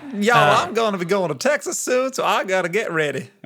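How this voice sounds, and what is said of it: Put-on stereotyped cowboy Texan accent. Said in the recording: “he's a Texan ... your ability to do a cowboy accent ... easily imitate a stereotyped accent”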